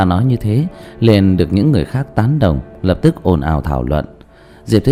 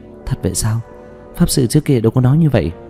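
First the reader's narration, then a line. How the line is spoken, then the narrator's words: Stunned, disbelieving mutter. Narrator (Vietnamese): kinh hãi, không tin được, lẩm bẩm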